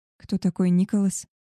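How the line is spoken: Quiet question. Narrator (Russian): тихо спросила его

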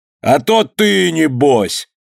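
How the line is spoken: Laughing loudly. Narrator (Russian): захохотал Иван

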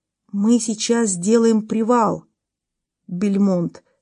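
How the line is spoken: Plain. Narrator (Russian): сказал полковник

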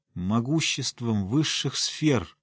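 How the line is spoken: Exhausted moan. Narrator (Russian): простонала чародейка, собирая остатки сил

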